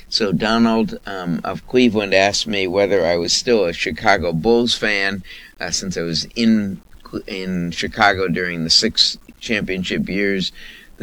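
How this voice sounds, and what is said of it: Hoarse voice. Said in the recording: “the reason I'm hoarse is even when I'm rooting on TV, I'm yelling”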